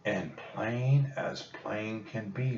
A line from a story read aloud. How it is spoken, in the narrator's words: whispered Jack